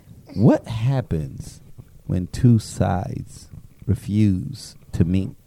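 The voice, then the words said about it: Sexy voice. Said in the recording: “my sexy voice”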